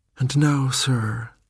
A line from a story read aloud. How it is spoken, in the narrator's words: continued with a sigh of weariness